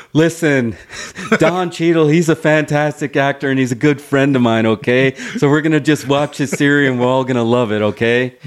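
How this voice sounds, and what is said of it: Imitates another person's voice. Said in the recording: “That's my attempt at Mark Ruffalo. ... That's a solid Ruffalo.”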